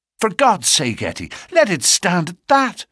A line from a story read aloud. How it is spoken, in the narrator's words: he cried